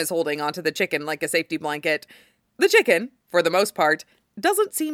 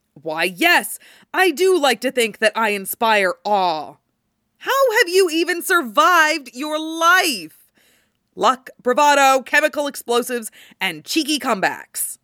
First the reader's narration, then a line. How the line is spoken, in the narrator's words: Jason snaps